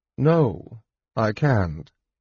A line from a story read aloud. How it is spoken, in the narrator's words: Jenna replied coolly